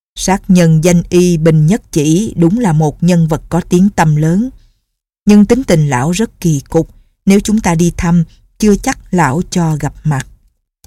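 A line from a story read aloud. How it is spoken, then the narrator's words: Smiling. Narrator (Vietnamese): Nhạc Bất Quần mỉm cười nói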